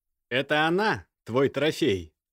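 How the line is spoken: Amused snort. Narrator (Russian): хмыкнул Костя

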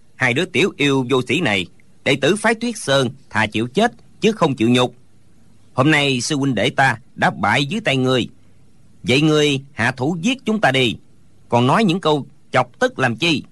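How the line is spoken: Angry scolding. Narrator (Vietnamese): Hô Diên Dạng Thiện tức giận mắng

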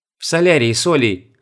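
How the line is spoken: Plain. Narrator (Russian): ответила Света

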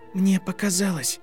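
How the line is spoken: Barely audible whisper. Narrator (Russian): еле слышно прошептала она

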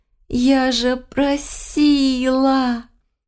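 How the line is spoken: Hopeless moan. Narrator (Russian): простонала обреченно

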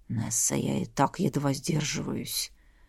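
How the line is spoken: Hoarse mutter. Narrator (Russian): хрипло пробормотал любимый

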